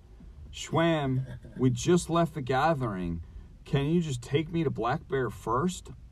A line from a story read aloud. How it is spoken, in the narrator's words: pleaded